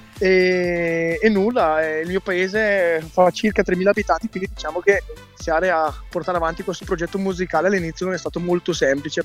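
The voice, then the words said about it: Northern Italian Brescia accent. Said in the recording (Italian): “io vivo a Brescia, si può sentire dall'accento, sicuramente non vengo da Catanzaro”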